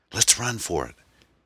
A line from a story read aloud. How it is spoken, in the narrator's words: he whispered to Aaron